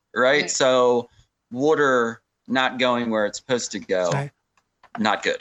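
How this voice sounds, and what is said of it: Philadelphia accent on 'water'. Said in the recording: “Do you hear that Philly area accent that came out of her? Water.”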